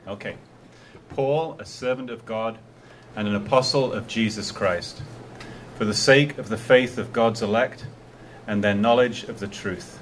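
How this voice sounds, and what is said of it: British accent, like a BBC announcer. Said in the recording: “With a British accent. ... With a British accent. ... I love BBC announcers.”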